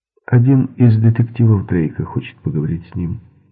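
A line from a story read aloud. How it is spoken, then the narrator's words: Plain. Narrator (Russian): сказала Делла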